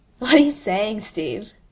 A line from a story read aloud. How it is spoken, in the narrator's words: Bucky scoffs